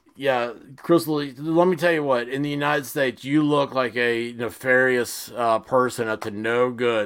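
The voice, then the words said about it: Sarcastic tone. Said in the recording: “the sarcasm in my voice, it's 100% right now”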